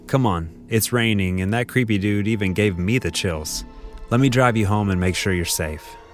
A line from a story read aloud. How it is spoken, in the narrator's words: Teddy kindly said